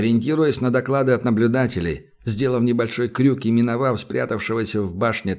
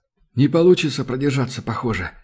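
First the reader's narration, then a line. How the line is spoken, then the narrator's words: Sudden mutter. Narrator (Russian): пробормотал вдруг Юрка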